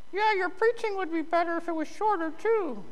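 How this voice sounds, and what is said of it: Mocking falsetto character voice. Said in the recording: “That was the voice of the enemy. ... That false falsetto.”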